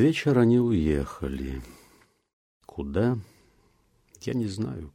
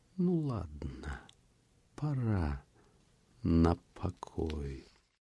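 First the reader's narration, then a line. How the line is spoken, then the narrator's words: Seemingly offhand. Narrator (Russian): сказала как будто небрежно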